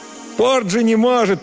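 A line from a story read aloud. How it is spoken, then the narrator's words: Shouted. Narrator (Russian): прокричал он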